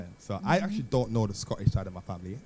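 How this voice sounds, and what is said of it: Slips into a Scottish accent. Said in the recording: “the Scottish accent just came out”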